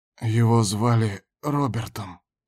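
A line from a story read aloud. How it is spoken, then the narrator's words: Suddenly hoarse reply. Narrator (Russian): ответил Кондор и сам не поверил, что слышит свой голос, внезапно охрипший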